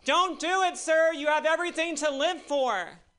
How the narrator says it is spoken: this guy shouted

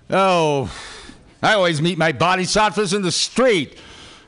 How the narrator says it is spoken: Snyder yelled

